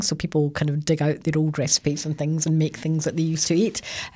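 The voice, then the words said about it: Softened Scottish accent. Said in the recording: “I don't think I'll ever lose this accent ... It's softened quite a bit ... people are reminding me all the time that I'm Scottish ... Sometimes they think I'm Irish”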